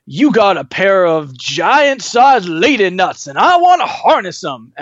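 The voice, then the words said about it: Imitates a TV villain's speech patterns. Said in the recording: “that's a pretty good imitation of his speech patterns”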